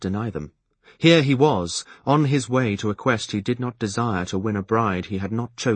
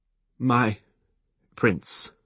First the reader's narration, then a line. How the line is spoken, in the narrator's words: he said brokenly